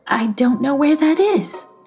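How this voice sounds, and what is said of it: Panicky exclaiming female character voice. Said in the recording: “she exclaimed in a panicky voice.”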